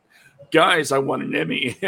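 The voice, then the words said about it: Attempted Seth Rogen impression. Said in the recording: “his Seth Rogen impression... I see, I can't do it.”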